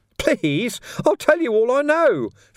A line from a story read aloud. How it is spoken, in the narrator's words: Ferret squeaked